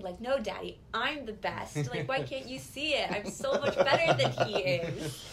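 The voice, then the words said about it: Impression of Loki. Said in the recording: “That's a great Loki impression.”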